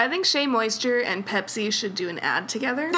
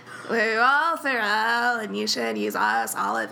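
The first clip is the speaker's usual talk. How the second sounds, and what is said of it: Sung imitation of another person's voice. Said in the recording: “me being Kendall Jenner singing ... That's why I assume that her voice sounds”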